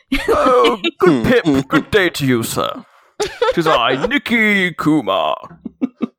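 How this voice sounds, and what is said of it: Put-on British accent. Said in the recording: “you literally have a fucking British accent”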